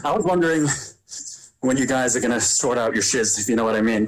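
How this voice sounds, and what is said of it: Slight British accent with American twang. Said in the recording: “you've only taken on a slight British accent. ... I think I've adopted some of the twang,”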